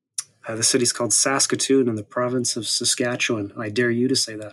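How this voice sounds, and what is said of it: Canadian accent. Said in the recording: “perhaps listeners can hear in your accent, that you are Canadian yourself”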